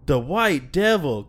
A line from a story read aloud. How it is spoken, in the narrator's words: gasped Martin